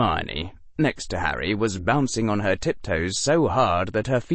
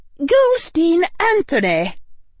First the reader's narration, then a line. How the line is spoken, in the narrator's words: Professor McGonagall called out